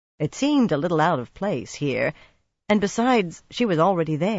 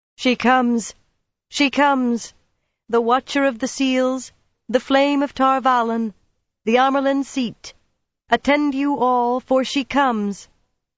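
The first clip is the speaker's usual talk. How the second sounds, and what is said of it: Clear, high, intoning voice. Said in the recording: “intone the ancient formula in a clear, high voice.”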